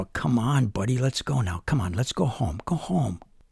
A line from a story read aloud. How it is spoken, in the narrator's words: Jesse would whisper